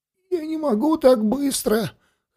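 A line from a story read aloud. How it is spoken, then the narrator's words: Hoarse wheezing teenager. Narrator (Russian): хрипел подросток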